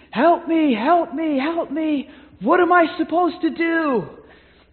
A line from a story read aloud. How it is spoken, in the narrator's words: as he's running, he's screaming